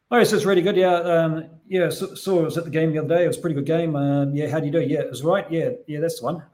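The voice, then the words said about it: Exaggerated broad New Zealand accent. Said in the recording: “I'll have to kind of ham it up a little bit because I haven't got a completely New Zealand accent... mine's pretty mild. But if I do one that some of my friends might speak”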